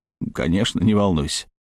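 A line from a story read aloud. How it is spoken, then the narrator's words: Muttered. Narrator (Russian): пробормотал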